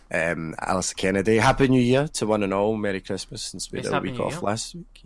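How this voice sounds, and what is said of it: Husky voice. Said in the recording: “I am one of your hosts with a husky voice. I sound like I should be able to sing, but I can't ... my voice might go like this a few times”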